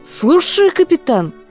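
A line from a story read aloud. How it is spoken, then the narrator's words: Exclamation. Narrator (Russian): воскликнул Фред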